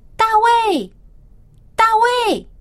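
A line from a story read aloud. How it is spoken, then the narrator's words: Father calling out. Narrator (Chinese): 他的爸爸耶西在叫他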